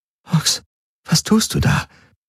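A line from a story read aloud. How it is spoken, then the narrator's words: Whispering. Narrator (German): Kirai flüstern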